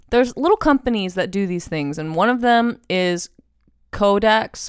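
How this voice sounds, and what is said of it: Hoarse, sore-throat voice. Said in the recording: “I have a sore throat because I'm just sick”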